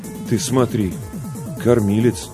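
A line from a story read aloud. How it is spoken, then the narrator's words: Confused muttering. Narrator (Russian): растерянно пробормотал Ларионов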